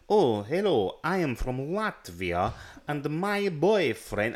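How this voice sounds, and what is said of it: Stereotypical put-on Russian accent. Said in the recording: “the most stereotypical Russian accent”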